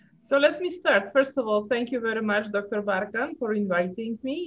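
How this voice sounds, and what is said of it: Polish accent. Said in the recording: “I have this kind of funny accent. So I'm originally from Poland.”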